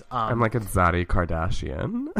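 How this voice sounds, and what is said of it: Deep voice with vocal fry. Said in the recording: “my day off voice ... The little vocal fry, yes. deepness.”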